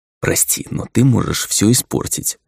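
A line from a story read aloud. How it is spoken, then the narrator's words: Whisper. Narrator (Russian): прошептал я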